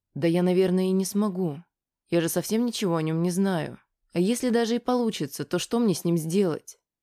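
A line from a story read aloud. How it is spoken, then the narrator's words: Calm. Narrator (Russian): спокойно ответила Аня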